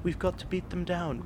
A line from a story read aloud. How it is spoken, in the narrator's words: whispered Daisy